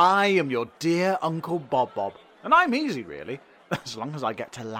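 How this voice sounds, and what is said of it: Usual voice. Nothing is said of it.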